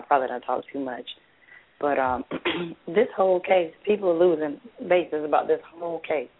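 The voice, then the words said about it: Weak, strained, partly lost voice. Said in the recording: “I'm going to try to say this without losing my breath, because as you can hear, my voice is a little bit gone.”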